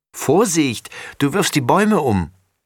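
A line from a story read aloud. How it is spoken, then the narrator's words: Call. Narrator (German): ruft Laura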